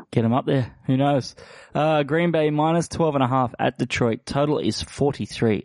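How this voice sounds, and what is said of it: Voice sounds off from flu. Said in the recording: “if my voice sounds a bit off ... battling the flu, the old Christmas flu ... suffering quite severely ... if that sounds bad”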